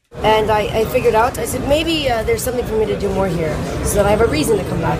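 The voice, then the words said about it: Odd hard-to-place acquired accent. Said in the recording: “No one can figure out exactly what accent she has acquired.”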